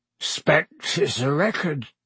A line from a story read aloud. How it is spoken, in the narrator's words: he said thickly